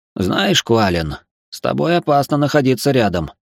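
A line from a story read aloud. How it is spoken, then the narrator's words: Grumbled. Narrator (Russian): пробурчал Эридани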